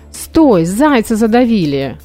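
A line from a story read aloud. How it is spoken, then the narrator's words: Journalist's exclamation. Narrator (Russian): воскликнул журналист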